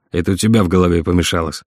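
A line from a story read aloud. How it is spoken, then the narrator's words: Irritated. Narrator (Russian): раздраженно ответил Марат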